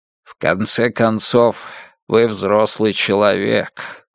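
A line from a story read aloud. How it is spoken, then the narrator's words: Muffled voice. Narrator (Russian): глухо сказал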